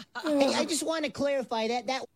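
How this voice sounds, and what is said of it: Imitates another person's voice. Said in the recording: “Oh, it's Joe Pesci again.”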